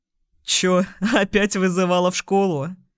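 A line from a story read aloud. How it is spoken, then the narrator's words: Short guffaw. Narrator (Russian): хохотнул Сергеевич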